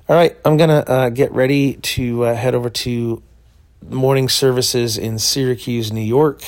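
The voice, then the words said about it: Froggy, rough voice. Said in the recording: “my voice is a little froggy”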